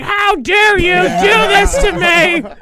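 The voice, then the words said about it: Exaggerated older mom voice. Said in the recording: “I'm noticing the accent too, by the way... she doesn't even talk like that... it's just my mom, mom voice... I have to make her older than what she is”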